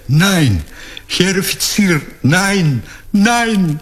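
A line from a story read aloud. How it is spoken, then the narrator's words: Desperate cry. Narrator (Russian): выдохнула с криком отчаяния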